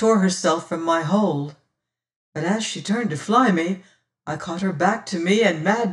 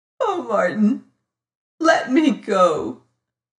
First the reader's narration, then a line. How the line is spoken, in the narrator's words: she sobbed